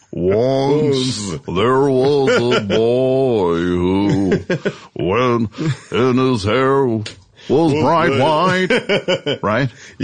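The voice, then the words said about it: Deep-voiced singer impression. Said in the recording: “the guy's got that deep voice ... that impression”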